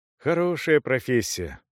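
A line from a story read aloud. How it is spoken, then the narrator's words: Sigh. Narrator (Russian): вздохнул пан Бонди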